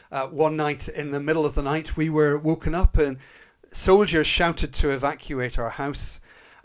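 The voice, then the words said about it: Northern Irish accent. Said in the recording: “as you can probably just about tell from my accent, I was brought up in Northern Ireland”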